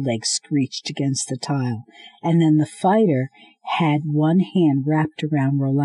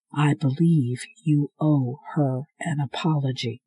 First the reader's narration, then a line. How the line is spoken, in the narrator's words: the fighter said in his quiet, even tone